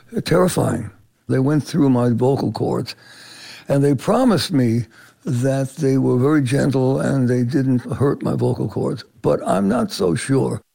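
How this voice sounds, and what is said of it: Hoarse voice. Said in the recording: “Manilow is still hoarse”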